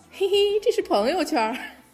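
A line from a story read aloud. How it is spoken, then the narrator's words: Chuckling. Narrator (Chinese): 孙悟空笑道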